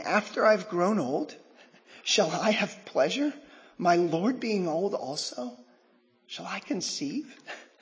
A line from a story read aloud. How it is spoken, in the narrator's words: Sarah laughed within herself, saying